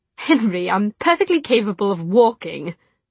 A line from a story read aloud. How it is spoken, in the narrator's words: Charlotte said indignantly